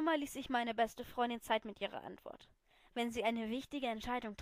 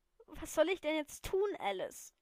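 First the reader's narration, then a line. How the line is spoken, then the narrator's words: Sobbing question. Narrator (German): fragte schluchzend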